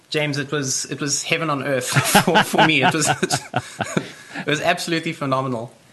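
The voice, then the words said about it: South African accent. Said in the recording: “what a wonderful accent you have. You just sound so smart. ... New Zealand, Australia, England ... South Africa”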